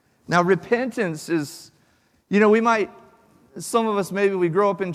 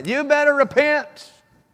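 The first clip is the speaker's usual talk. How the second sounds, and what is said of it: Put-on Southern preacher accent. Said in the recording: “That was my southern pastor accent right there.”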